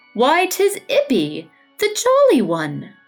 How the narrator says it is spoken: he exclaimed

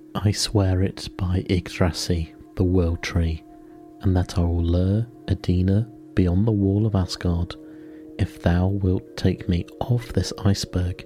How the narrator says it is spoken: said Loki

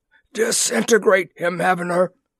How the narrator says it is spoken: gasped

